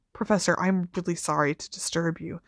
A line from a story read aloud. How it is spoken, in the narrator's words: said Harry as quietly as possible